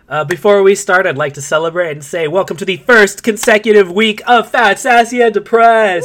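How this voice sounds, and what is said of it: Congested, strange-sounding voice. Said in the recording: “sorry for my voice. I was just sneezing like crazy. So I'm going to sound really weird this episode.”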